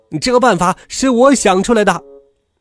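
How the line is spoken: Bursting loud shout. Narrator (Chinese): 他怎么也憋不住了，就大声的嚷起来

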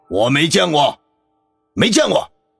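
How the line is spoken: Startled roar. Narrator (Chinese): 全身一激灵，随即吼道

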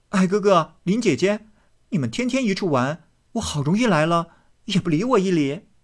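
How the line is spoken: Laughing. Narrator (Chinese): 湘云走来，笑道

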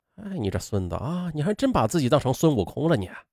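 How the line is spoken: Muttering. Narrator (Chinese): 网管在那嘀咕

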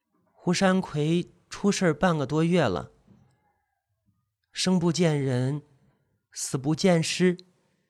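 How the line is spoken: Quiet, polite. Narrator (Chinese): 何东云很客气的小声的说

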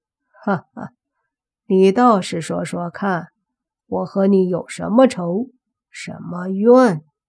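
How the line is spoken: Amused, curious. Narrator (Chinese): 韩鬼饶有兴趣的问道

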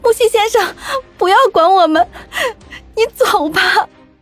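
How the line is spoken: Weeping injured speaker. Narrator (Chinese): 可能受到很重的伤，我哭着对他说

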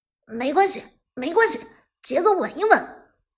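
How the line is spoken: Loud. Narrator (Chinese): 妖帝大声说道

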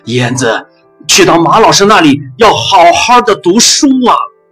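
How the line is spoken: Shouting while running. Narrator (Chinese): 爸爸追着火车，大声地对着我说

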